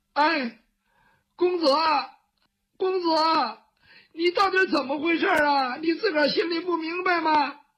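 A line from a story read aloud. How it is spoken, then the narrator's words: Crying child. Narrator (Chinese): 雨墨这个时候哭了，他毕竟是个孩子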